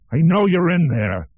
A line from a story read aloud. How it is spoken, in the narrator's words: he shouted